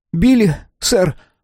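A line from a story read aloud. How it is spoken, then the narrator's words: Squeaked. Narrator (Russian): пропищал он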